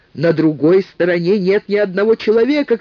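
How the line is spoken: Shouting. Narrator (Russian): кричал он

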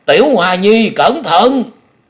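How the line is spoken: Old man screaming. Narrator (Vietnamese): Lão kêu rú lên

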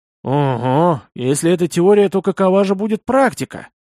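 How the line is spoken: Grumbled mutter. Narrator (Russian): буркнул я

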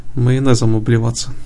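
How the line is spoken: Snorting. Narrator (Russian): хмыкнул Лейкил

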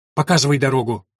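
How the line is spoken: Sharp curt young woman. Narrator (Russian): резко бросила девушка

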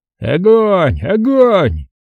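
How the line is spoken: Shouting, voice breaking. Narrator (Russian): кричал сорвавшимся голосом Смирных

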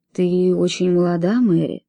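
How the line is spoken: Soft. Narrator (Russian): мягко сказал он

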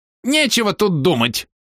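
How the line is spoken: Emboldened old man squealing. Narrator (Russian): взвизгнул осмелевший старик

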